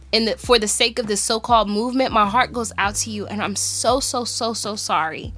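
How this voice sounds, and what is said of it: Emotional, cracking voice. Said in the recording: “my voice is cracking just just thinking about it”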